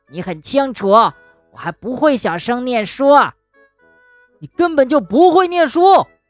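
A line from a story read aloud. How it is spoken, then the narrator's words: Raised-voice shout. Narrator (Chinese): 跳跳提高嗓门喊道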